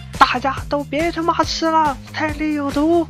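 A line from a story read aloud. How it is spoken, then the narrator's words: Loud shout. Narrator (Chinese): 这货当时居然大喊道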